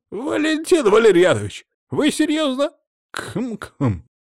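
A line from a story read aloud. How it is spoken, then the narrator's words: Loud throat clearing. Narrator (Russian): громко прочистил горло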